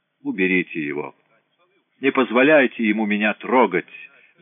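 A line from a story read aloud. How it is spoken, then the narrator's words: Screaming. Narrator (Russian): завопил Людовик X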